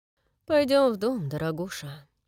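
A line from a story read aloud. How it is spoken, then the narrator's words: Tender speech. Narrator (Russian): сказал он ласково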